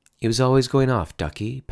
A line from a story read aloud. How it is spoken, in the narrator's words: Patty said